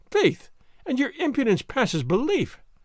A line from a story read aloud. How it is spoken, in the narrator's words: she said merrily